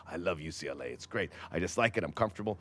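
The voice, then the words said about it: Imitates another person's voice. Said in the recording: “terrible Mourinho impression”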